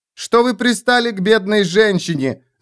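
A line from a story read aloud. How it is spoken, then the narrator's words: Shout. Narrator (Russian): закричала она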